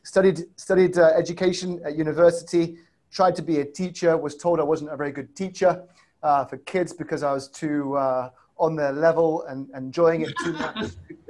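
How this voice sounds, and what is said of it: Mixed British and Chicago accent. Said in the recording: “my accent is south side of Chicago, stroke UK ... A Brit originally”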